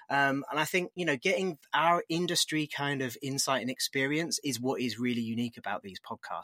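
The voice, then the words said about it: British accent. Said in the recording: “with my accent, I run one in the UK.”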